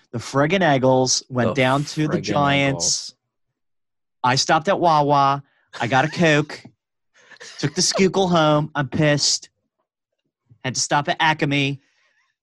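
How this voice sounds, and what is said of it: Put-on Philadelphia accent. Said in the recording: “with a Philly accent.”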